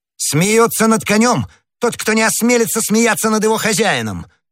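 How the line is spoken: Furious exclamation. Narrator (Russian): воскликнул в бешенстве гасконец

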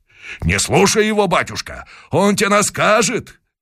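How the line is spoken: Crowd of men shouting. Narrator (Russian): кричали казаки

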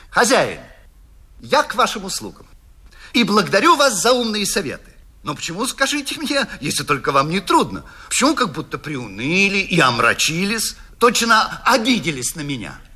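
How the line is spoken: Almost cheerful. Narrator (Russian): И он сказал почти весело

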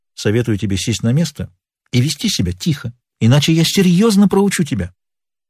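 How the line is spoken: Calm. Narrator (Russian): Боб спокойно произнес

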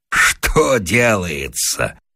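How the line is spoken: Laughing loudly. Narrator (Russian): расхохотался Вася

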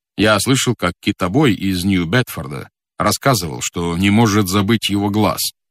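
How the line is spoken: Plain. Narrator (Russian): сказал капитан

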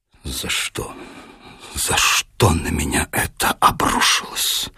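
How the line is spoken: Grief-stricken whisper. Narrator (Russian): потрясенный, уничтоженный, с искаженным горем и страданием лицом, запекшиеся губы шептали

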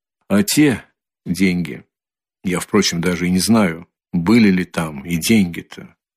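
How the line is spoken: Quiet, pensive. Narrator (Russian): прибавил тихо и как бы в раздумье

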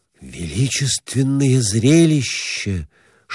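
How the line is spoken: Whisper. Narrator (Russian): шептал он

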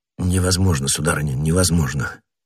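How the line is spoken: Low voice, inwardly conceding. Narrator (Russian): вполголоса произнес, сознававший в душе всю справедливость этого довода

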